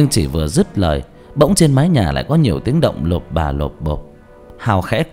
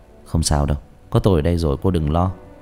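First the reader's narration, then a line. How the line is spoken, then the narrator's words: Soft comforting. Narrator (Vietnamese): Hào khẽ an ủi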